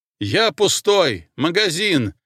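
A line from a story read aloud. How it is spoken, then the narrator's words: Shouted. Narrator (Russian): крикнул Смирнов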